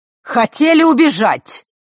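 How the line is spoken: Shout from the doorway. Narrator (Russian): выкрикнула она с порога

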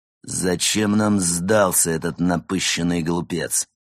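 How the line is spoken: Growled. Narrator (Russian): зарычал незнакомец

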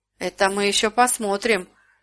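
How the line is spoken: Sullen grumble. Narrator (Russian): угрюмо буркнул Страшила

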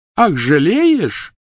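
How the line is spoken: Shrill laughter. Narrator (Russian): Гермиона пронзительно расхохоталась

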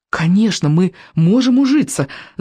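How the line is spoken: Fervent exclamation. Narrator (Russian): с жаром воскликнул Икинг

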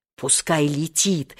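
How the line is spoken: Fierce whisper. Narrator (Russian): свирепо шепнул Сережа

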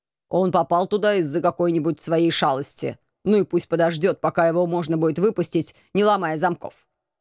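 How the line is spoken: Policeman grumbling. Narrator (Russian): Ворчал полицейский

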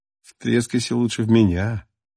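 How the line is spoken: Ingratiating, insinuating tone. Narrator (Russian): вкрадчиво произнес Максим

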